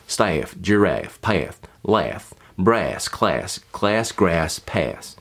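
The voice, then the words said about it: Tennessee accent, drawn-out vowels. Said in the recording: “something more along the lines of Tennessee ... There's more diphthongs, so there's more of a movement in them.”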